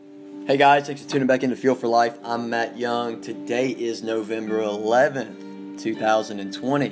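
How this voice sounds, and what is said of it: Slightly sick, under-the-weather voice. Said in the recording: “you can probably hear it in my voice a little bit, a little under the weather”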